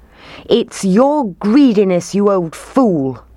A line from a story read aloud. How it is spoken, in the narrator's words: they shouted